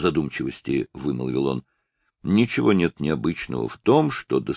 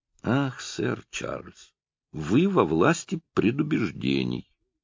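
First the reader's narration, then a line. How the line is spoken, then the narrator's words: Soft speech. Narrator (Russian): мягко проговорил мистер Брэдли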